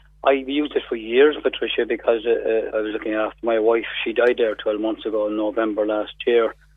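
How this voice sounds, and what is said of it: Hoarse voice. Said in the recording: “Excuse my voice ... I'm hoarse for the last few days there, but it's such a bug.”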